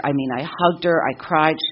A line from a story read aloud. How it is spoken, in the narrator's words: she cried